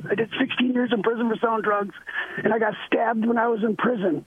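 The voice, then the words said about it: Raspy, rough voice. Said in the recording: “I talk crazy like this ... I talk all raspy like this”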